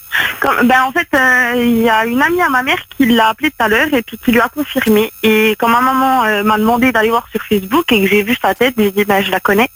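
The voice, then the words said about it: Regional French accent, somewhat Belgian-sounding. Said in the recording (French): “t'as le même accent que Joël ... c'est la même région ... ça fait un peu accent belge”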